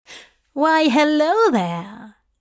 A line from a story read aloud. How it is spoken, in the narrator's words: Hob said to it cheerfully